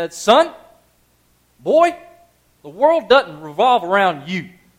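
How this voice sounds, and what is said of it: Deep southern accent. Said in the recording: “Just that accent, that deep southern accent.”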